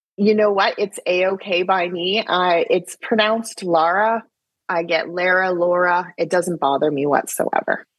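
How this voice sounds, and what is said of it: Canadian accent. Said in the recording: “because of your Canadian accent, I thought you said Laura”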